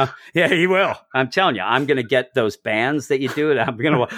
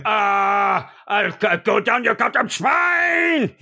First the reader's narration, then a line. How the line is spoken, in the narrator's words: he yells